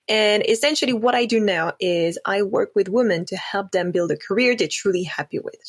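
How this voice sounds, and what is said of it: French accent in English. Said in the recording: “As you can probably hear from the accent, I am actually French”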